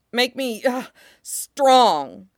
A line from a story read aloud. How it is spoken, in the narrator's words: the kid says, word mangled by the shallow panting of his breath, the blood running thick in his mouth